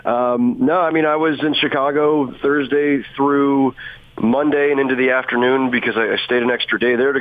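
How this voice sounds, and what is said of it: Deep voice from a cold. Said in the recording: “came down with this cold that you can hear in my voice ... it's kind of a deep, sexy kind of thing going on there”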